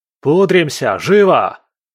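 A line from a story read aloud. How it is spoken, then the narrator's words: Yelling almost to hoarseness. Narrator (Russian): Заорал он так, что едва не перешел на хрип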